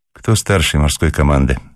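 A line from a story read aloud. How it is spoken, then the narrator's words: Tired question. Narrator (Russian): спросила она устало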